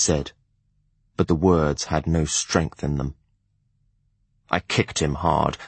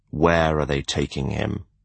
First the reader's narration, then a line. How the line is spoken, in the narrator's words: I growled